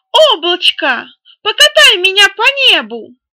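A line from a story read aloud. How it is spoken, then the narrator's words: Shouted. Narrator (Russian): прокричал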